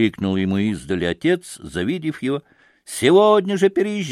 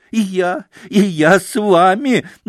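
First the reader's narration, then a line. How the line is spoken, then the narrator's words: Blissful laughing shout. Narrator (Russian): выкрикивал он, смеясь мелким веселым смешком, с блаженством в лице и на все готовый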